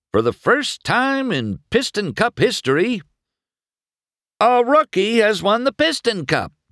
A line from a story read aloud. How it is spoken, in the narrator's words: McQueen shouted